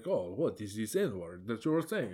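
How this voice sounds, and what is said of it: Put-on Ukrainian accent, possibly unconvincing. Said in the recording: “speak with a Ukrainian accent, which I don't know if my accent sounds at all like Ukrainian”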